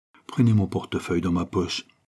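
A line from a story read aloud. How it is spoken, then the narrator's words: Barely audible voice. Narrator (French): dit-il d'une voix presque indistincte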